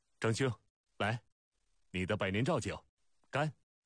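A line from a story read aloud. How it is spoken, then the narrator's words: Loud shout. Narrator (Chinese): 孟尝君高声大叫道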